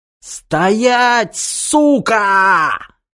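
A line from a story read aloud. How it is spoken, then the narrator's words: Emboldened shriek. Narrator (Russian): фашисту вернулась не только смелость, но и способность визжать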